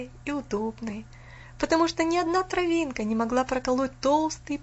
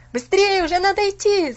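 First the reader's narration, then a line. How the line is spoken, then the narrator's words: Many voices shouting together. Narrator (Russian): закричали они опять все разом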